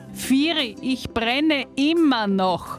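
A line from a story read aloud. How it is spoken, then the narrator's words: Shrieking in mock terror. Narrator (German): kreischte der Hase in gespielter Todesangst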